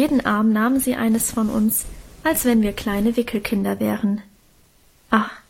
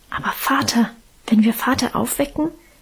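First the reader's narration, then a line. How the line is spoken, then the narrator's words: Fearful whisper. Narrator (German): wisperte ich ängstlich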